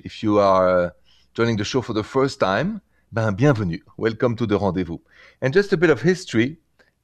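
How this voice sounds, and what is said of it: French accent. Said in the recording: “L'accent est français. The accent is French.”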